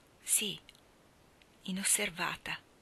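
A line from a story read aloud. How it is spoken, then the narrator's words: Whispered. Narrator (Italian): sussurrò Mally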